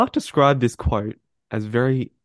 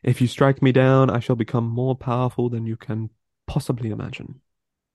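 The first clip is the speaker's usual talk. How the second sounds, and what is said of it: Good impression of Obi-Wan Kenobi. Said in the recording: “That was a good impression.”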